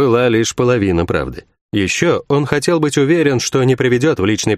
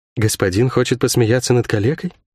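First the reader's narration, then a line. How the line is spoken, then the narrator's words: Quiet question. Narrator (Russian): тихо спросила гостья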